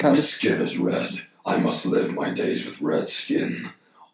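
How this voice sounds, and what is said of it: Devil character voice. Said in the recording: “Can I do a good devil's voice? ... I'll be the devil”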